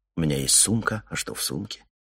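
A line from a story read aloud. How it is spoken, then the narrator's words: Muttered. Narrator (Russian): Ларри пробормотал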